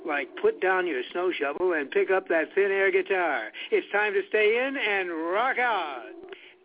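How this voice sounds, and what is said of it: Shaggy doing a radio DJ voice. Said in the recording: “you want to hear my radio voice?”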